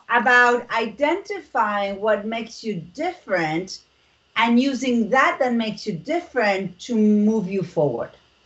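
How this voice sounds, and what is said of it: Argentinian accent in English. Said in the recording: “as you can hear, I'm from Argentina. I am not American and I do have an accent”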